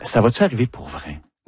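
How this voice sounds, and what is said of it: Whispered question. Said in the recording (French): “On chuchote.”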